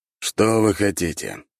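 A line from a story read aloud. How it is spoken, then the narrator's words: Sighing. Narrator (Russian): вздохнул я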